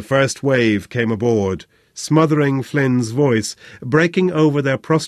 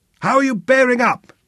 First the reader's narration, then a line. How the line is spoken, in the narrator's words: he bellowed